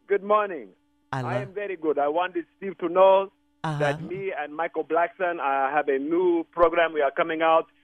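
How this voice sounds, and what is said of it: Speaking in a put-on accent. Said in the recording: “I love that accent.”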